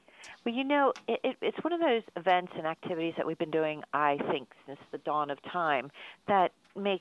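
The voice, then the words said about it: Baltimore accent. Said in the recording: “my Baltimore accent”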